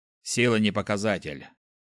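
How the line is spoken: Skeptical hum. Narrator (Russian): хмыкнул Хендрикс

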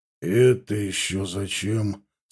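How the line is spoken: General's grumble. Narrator (Russian): скорее проворчал, чем сказал генерал

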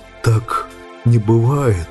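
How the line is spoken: Hoarse rustling voice. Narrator (Russian): Посаженным голосом прошелестел Сэм

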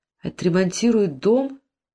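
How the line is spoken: Confused questioning. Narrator (Russian): растерянно переспросила Сирина

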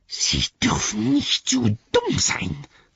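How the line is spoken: Hiss. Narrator (German): zischte

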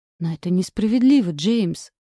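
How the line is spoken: Resigned sigh. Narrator (Russian): вздохнула обреченно

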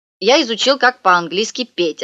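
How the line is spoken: Plain. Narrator (Russian): сказал Павля

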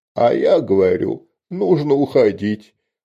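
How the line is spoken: Nervous trembling breaking voice. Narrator (Russian): Нервно срывающимся и дрожащим голосом говорил Чикир

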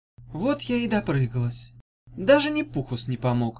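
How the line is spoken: Sad inner thought. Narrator (Russian): грустно подумала

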